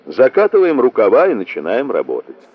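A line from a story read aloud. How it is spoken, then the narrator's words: Joyful smiling speech. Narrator (Russian): радостно улыбнулся и произнес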